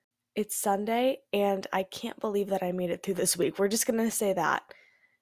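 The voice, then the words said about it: Congested, stuffy-nosed voice. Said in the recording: “my voice sounds a little funny. My nose is a little stuffed up.”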